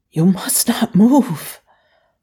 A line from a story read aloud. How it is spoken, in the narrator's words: Lo Fei whispered urgently